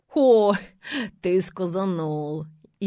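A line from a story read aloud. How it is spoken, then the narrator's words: Sarcastic old woman. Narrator (Russian): язвительно молвила бабка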